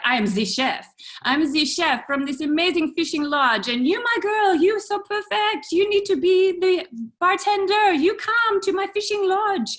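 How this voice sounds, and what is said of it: Bad put-on French accent. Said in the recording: “sorry for my French accent, it's really bad”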